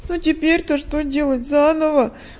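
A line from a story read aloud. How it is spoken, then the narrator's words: Daughter speaking, sobbing. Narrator (Russian): произнесла дочь и всхлипнула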